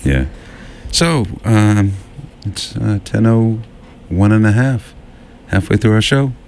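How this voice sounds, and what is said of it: Sad-sounding put-on radio announcer voice. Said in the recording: “Why do you talk like this? ... my professional radio announcer voice ... It's a sad voice.”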